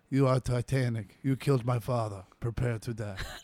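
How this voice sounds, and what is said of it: Put-on accent, character voice. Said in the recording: “I was worried of where that accent was going to go when it started to come out.”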